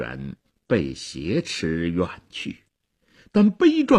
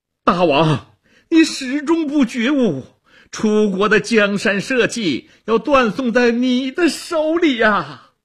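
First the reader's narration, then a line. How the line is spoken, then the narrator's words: Straining, loud cry. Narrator (Chinese): 屈原挣扎着高喊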